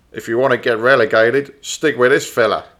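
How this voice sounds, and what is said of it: Put-on Australian accent. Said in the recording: “I didn't realise he was South African. ... Australian! 100% Australian. Nailed the accent.”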